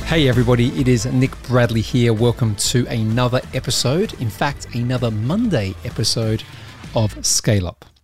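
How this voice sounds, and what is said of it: Soft, quiet, subdued voice. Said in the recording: “my voice is a little bit less animated and maybe just a little bit softer ... a little bit quieter than normal”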